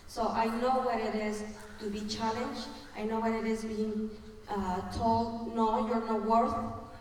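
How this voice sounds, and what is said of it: Mexican accent in English. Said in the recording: “I'm an immigrant, as you can tell, my accent tells, you know, where I'm from. I'm from Mexico.”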